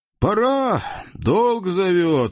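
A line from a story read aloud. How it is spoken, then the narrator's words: Sighing. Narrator (Russian): вздохнул бывший узник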